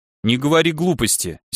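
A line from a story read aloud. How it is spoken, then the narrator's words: Angry interruption. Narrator (Russian): сердито перебила его Марика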